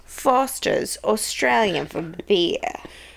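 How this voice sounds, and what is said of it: Poor put-on Australian accent. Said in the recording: “I'm really bad at Australian accent.”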